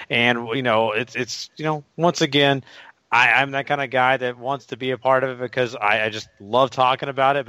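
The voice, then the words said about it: Weak voice, sounds sick. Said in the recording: “my voice isn't the strongest tonight. Been getting over a little sickness ... I apologize if I sound terrible tonight”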